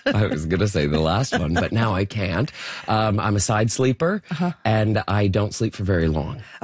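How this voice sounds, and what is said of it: Raspy, hoarse voice. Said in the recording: “raspy throat ... It's a good radio voice”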